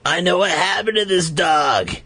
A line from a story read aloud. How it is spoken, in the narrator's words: he sobbed